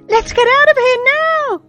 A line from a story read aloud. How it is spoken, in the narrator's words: shouted someone